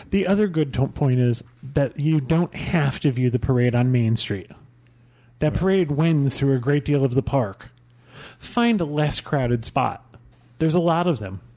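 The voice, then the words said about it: Southern drawl, Kentucky accent. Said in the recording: “She's from Kentucky ... Southern accent ... a very nice southern drawl”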